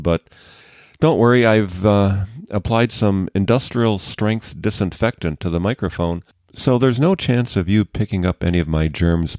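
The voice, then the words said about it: Voice affected by a cold. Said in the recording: “My voice sounds a little different today because I'm getting over a cold”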